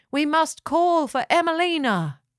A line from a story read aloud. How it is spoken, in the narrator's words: they cried